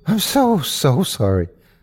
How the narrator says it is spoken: I panted heavily

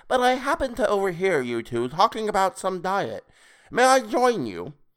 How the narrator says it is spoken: Toadface said in a high nasal voice

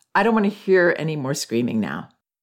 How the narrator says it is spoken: said in an even tone

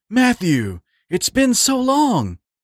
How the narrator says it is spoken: almost cried in an emotional voice

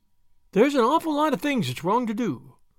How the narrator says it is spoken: said Davy with a sigh

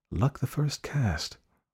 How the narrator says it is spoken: murmured Taurus

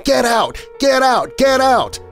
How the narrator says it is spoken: screaming

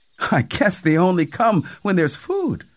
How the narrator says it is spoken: MM laughed and said

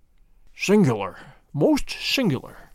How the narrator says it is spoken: he murmured

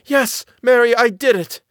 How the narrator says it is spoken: her voice came back to her, and she cried out loudly

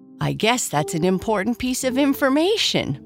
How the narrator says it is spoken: Boo Boo laughed

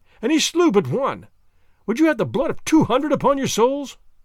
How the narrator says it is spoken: I cried

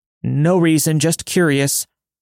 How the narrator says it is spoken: I yelled out

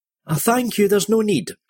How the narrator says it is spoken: she gasped

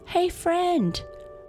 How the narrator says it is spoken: shouted Otto to the wind

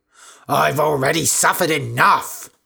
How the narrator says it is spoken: shouted Candida

